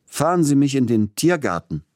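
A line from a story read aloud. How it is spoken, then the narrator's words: Calling out. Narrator (German): rief er dem Kutscher zu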